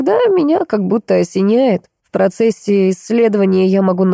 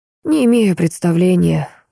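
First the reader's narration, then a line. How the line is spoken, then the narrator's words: Sad, smiling. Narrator (Russian): он грустно улыбнулся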